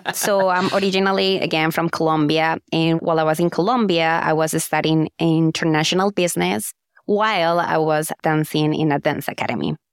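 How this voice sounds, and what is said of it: Colombian-accented English. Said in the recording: “I'm ... with a Colombian accent.”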